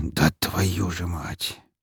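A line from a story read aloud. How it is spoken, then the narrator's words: Quiet hiss. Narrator (Russian): Тихо прошипел Лазарев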